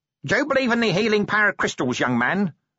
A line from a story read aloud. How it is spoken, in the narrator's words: snapped the woman